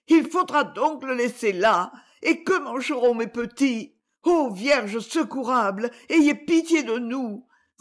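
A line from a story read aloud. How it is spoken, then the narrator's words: Desperate exclamation. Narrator (French): s'écria la malheureuse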